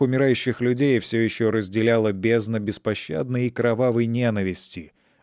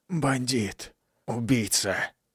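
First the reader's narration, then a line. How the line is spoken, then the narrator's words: Barely whispering. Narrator (Russian): Едва шептал другой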